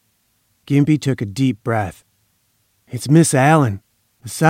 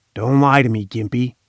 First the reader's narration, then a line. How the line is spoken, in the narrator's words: he said raspingly